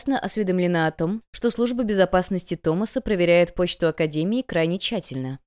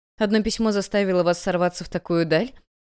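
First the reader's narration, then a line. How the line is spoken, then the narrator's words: Mocking. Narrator (Russian): Насмешливо сказала Эбигейл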